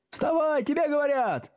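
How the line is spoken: Eager shouting, several voices. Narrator (Russian): услужливо закричали несколько голосов

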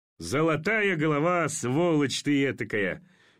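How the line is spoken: Forced, conceited laugh. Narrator (Russian): Неестественно и самолюбиво засмеялся Орлов

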